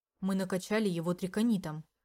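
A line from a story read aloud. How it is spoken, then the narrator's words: Calm explanation. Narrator (Russian): вполне спокойно говорил Дариуш, разъясняя ситуацию Олуэн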